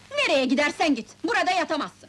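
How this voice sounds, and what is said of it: Shouting angrily. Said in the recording (Turkish): “Bağırma lan!”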